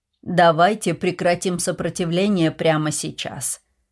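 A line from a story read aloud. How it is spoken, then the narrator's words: Calm, even, loud. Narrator (Russian): сказал он спокойно и ровно, но достаточно громко, чтобы его услышали все, включая Клэнси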